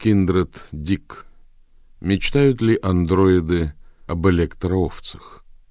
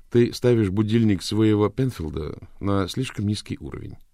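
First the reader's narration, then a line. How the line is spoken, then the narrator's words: Plain. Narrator (Russian): сказал Рик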